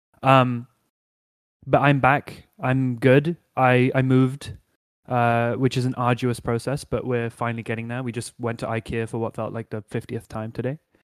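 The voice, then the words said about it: Neutral British RP accent. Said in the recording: “I have a very neutral, hard to place accent ... I think it sounds quite posh. Like, I think it's pretty, you know, like highbrow British accent. ... It's just RP, received pronunciation, run of the mill, nothing posh.”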